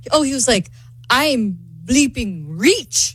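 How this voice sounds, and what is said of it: Put-on Argentinian accent. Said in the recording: “I love your Argentinian accent.”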